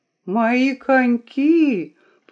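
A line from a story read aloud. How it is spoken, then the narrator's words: Groaned in reply. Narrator (Russian): простонал Том в ответ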